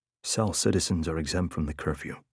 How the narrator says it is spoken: he muttered

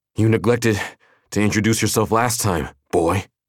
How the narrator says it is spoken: Between panting breaths, said

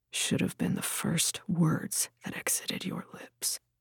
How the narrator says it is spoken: whispered

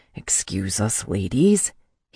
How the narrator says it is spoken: bit out

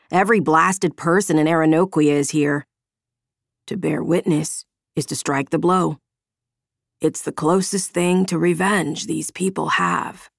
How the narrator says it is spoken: Marcus answered, his voice still raspy from his injured throat

